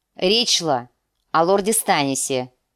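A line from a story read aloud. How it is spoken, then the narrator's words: Irritated. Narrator (Russian): раздраженным тоном ответил Уолдер Фрей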